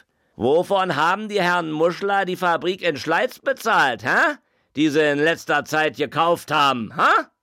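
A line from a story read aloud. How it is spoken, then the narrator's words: Calling out. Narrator (German): einer rief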